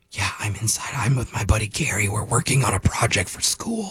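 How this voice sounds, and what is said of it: Whispering. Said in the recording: “Why are you whispering? ... You don't have to whisper.”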